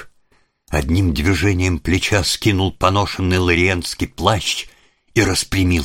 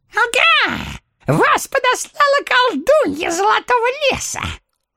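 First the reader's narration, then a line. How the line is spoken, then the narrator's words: Gloating squeak, little man. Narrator (Russian): злорадно пропищал человечек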